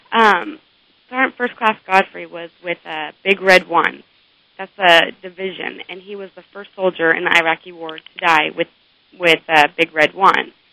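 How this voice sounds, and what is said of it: Voice with a cold, coughing. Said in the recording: “I'm sorry for coughing, I have a cold”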